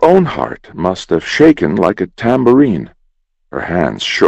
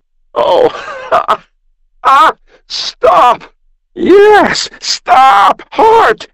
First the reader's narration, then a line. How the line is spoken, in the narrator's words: squealed